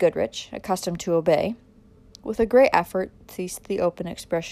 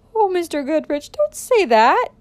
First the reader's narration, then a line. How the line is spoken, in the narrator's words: cried the mother